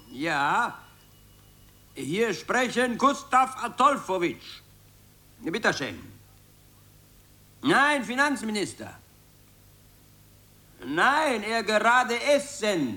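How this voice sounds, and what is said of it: Put-on Moldovan foreign accent. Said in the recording (German): “sprich mit ausländischem Akzent ... Irgendeinen moldawischen, meinetwegen.”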